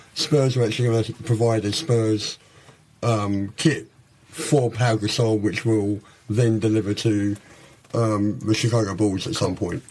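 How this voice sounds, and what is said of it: Slightly throaty voice, London accent. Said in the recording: “don't let his accent fool you ... North Londoner ... I'm actually a bit throaty right now. I've got a bit of a sore throat”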